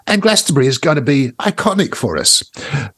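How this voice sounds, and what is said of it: Imitates another person's voice. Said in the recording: “That's not my best Duff, Cake, Duff McKagan impersonation”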